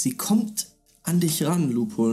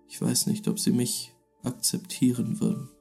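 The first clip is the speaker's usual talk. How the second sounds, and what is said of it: Very quiet whisper. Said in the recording (German): “flüstert dir ins Ohr ... So dass du dir ziemlich sicher bist, dass das niemand hören kann. Sehr leise.”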